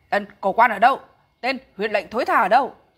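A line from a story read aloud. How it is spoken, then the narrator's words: Big man shouting. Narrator (Vietnamese): Một gã to lớn quát gọi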